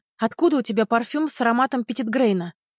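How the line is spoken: Blurted out. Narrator (Russian): Выпалила

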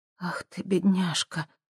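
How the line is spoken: Whisper. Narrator (Russian): прошептала Хелен

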